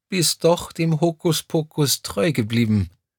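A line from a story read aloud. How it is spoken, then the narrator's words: Tearful yet beaming. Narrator (German): ergänzte Crescentia Rausch mit verheulter Stimme und strahlte dabei über das ganze Gesicht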